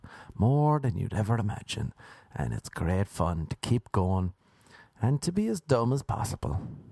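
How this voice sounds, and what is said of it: Irish accent. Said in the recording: “coming to America with like Irish buddies... With this accent, what will they believe?”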